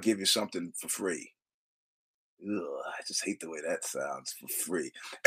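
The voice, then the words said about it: Hoarse voice. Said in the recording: “I'll explain why I'm hoarse.”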